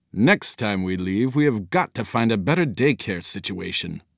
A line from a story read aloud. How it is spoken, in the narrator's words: muttered